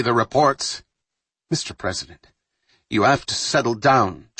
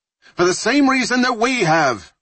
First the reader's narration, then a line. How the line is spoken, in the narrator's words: Ryan shouted back